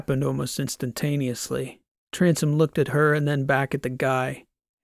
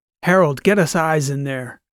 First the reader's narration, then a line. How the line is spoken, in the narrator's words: shouted